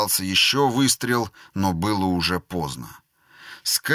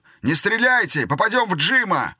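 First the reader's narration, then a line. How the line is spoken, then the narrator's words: Shout. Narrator (Russian): Кто-то крикнул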